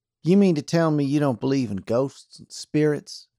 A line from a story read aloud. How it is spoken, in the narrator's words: asked Jane